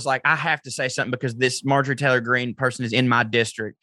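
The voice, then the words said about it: Southern American accent. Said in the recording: “As a white Southern man with this accent”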